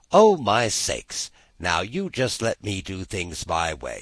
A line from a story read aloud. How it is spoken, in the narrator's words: said Miss Todd scornfully